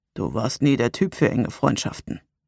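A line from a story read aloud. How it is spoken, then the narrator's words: Quiet. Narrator (German): sagte er leise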